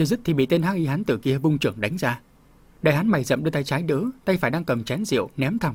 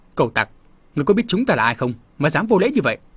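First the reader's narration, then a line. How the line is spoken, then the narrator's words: Shouted. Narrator (Vietnamese): Một trong số đó quát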